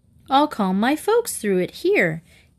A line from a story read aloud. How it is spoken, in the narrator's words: Katie giggled